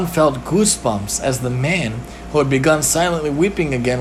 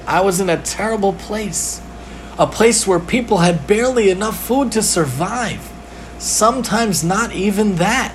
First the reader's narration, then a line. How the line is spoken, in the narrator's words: sighed